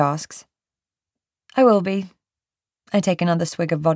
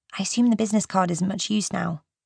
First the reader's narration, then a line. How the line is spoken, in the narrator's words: she says gently